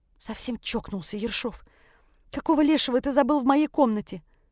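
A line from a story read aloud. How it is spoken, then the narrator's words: Hissed. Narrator (Russian): прошипела я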